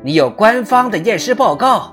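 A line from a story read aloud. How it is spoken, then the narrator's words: Loud shout. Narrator (Chinese): 弗里曼大喊一声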